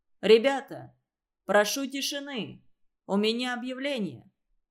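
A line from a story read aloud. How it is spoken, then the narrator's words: Loud announcement. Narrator (Russian): Ленька громко сказал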